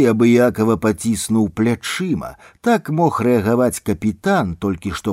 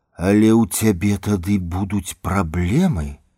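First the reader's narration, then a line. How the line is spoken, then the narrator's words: Mumbling. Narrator (Belarusian): прамармытала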